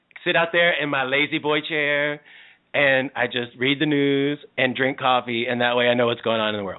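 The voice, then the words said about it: Southern American accent. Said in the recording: “It's a southern accent?”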